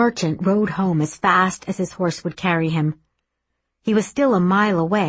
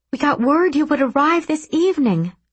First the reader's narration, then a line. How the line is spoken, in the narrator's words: she cried